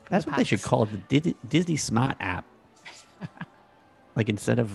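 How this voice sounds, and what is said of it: Convincing put-on Boston accent. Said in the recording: “I'm very critical of people's pretend Boston accents, but I have to say that you are spot on ... Wicked awesome ... Impressed”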